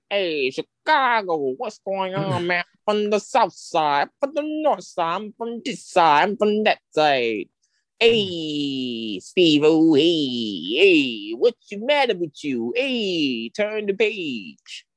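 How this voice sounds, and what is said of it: Put-on Chicago accent. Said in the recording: “talking Chicago accent”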